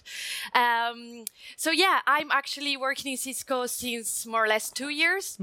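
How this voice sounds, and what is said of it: Italian accent. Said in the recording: “I'm Italian, come from Italy, so you may notice prime from my accent.”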